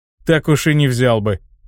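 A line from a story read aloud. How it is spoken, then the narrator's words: Skeptical snort. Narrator (Russian): хмыкнул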